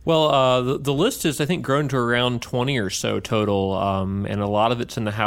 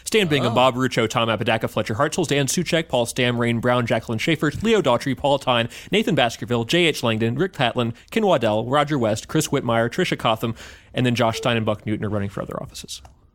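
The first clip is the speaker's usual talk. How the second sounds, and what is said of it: Very fast talking. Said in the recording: “my fast talking voice”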